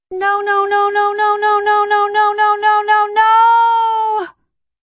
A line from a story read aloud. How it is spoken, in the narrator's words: He's wailing